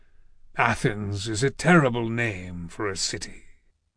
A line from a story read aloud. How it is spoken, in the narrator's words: The sea god said sullenly